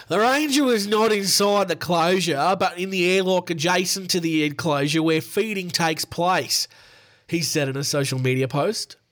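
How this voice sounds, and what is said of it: Put-on Northern Queensland Australian accent. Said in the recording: “I'll do my best Australian accent. My best Northern Queensland accent.”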